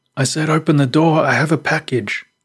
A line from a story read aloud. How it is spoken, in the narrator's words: The man called out angrily